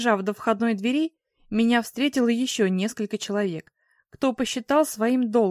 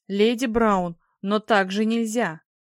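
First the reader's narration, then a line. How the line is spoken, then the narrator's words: Deep bass from crowd. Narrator (Russian): Где-то в толпе пробасил господин Шторм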